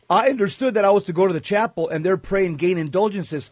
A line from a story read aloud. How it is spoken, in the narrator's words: Faustina said